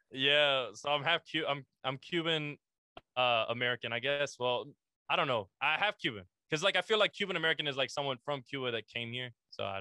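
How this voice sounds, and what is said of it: Latin American accent. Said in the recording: “are you some type of Latin? Because your accent, ... you can hear the Latin.”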